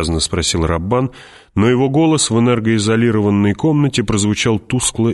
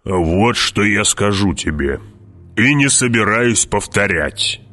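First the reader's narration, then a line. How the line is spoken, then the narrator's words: Growling. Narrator (Russian): прорычал барон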